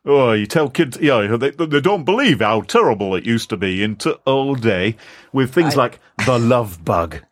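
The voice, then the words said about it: Put-on Yorkshire accent. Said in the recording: “just insulted with that accent... apologies to people from Yorkshire for that”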